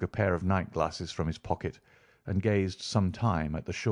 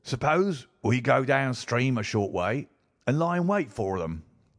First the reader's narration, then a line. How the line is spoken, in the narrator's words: said Jones eagerly